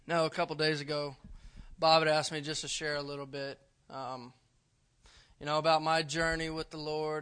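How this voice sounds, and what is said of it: Out of breath speech. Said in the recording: “Man, let me take a breath real quick. I've been going all day. I'm out of breath.”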